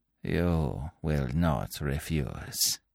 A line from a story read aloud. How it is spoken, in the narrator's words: continued Fu Manchu softly